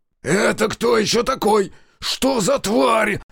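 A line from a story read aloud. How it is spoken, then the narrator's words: Yelled right into ear. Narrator (Russian): Заорал майор на ухо Демьяну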